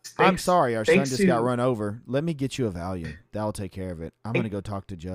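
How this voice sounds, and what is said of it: Flat monotone emotionless voice. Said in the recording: “the most monotone, emotionless person I've ever seen”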